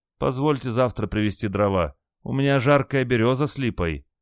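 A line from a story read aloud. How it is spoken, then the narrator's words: Pitiful pleading voice. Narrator (Russian): жалостливым голосом спросил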